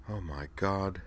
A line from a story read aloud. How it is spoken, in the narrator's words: whispered